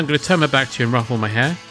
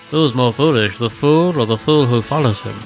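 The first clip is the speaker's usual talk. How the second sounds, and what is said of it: Imitates another person's voice. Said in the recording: “Sir Alec Guinness”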